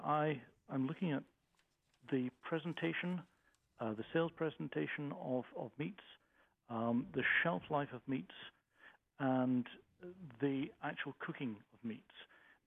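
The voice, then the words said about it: Non-local accent. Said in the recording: “as you may have guessed from the accent, I'm from away”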